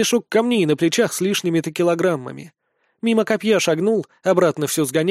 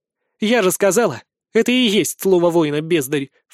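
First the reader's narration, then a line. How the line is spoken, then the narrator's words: Snort. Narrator (Russian): фыркнула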